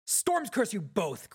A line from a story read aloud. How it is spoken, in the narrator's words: Greenplate finally shouted